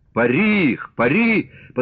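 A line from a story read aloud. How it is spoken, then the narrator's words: Hoarse shouting. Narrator (Russian): хрипло кричал Григорий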